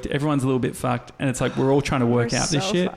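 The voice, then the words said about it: American international-school accent. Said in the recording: “You just sound like a kid from international school. ... Has an American accent.”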